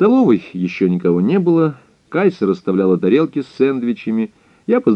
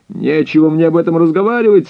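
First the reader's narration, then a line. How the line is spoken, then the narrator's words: Angry shout. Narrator (Russian): со злостью крикнул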